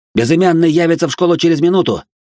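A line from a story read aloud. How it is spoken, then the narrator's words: Nearly shouting. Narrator (Russian): только что не прокричал я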